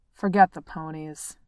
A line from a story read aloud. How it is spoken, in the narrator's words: growled Dwalin